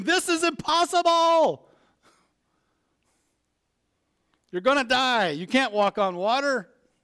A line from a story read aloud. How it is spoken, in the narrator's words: His logical mind screamed